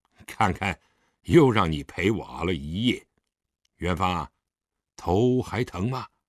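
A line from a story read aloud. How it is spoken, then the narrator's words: Forced laugh. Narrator (Chinese): 狄仁杰干笑了一声道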